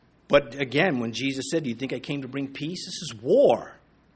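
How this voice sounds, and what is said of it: Usual voice. Nothing is said of it.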